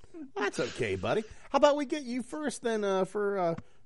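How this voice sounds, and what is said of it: Usual voice. Nothing is said of it.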